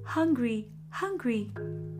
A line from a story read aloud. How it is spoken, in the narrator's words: chirped a young sparrow